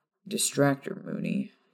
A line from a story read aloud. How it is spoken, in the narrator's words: Sirius mutter over her shoulder